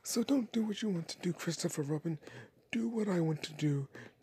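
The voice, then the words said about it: Winnie the Pooh character voice. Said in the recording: “my Winnie the Pooh impersonation.”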